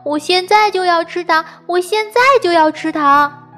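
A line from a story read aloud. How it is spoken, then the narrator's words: Child shouting loudly. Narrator (Chinese): 莱昂大声地喊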